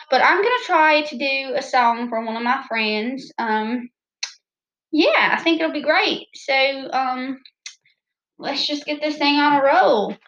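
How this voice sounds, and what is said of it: Southern American accent. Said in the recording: “Don't mind my southern accent. It likes to come out a lot ... my southern accent, it just comes out. It's natural.”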